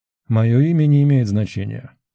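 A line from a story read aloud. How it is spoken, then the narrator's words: Calm speech. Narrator (Russian): спокойно продолжил говорить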